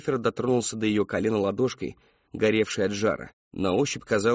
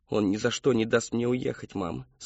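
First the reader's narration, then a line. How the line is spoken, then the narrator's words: Plain. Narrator (Russian): сказал Кристофер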